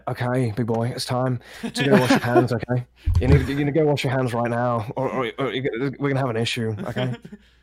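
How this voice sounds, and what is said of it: Imitates another person's voice. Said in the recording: “I did an impression of him”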